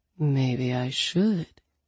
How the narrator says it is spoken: he murmured

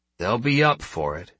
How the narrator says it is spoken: Sterling replied grimly

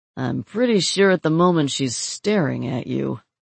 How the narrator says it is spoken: Terry said dryly

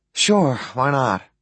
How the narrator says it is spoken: I sigh

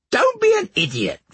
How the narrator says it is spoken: Farmer Sally piped up

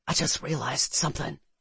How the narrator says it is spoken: she whispered

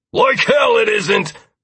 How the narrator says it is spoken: Lazarus barked angrily

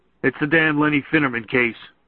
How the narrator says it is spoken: he said

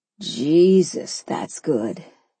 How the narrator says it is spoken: he breathed

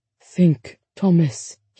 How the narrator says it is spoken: he murmured, fighting off the tide of sleep

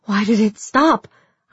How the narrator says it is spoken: I gasped

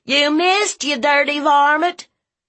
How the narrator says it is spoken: Vernon, who was behind a bush, jumped up and yelled

